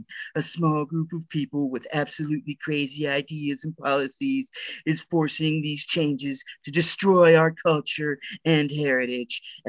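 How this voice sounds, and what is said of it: Imitates another person's voice. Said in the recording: “That was my best impression ... that was pretty good.”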